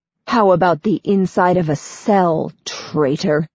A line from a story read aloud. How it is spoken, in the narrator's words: Firi snarls